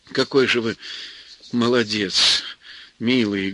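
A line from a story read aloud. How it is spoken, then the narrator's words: Affectionate. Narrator (Russian): говорила она ласково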